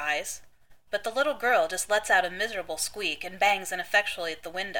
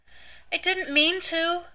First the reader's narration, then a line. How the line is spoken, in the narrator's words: she whimpers, more to herself than to Dean